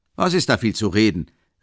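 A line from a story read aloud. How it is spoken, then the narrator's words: Big man calling out. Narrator (German): rief der andere Hausknecht, ein großer Kerl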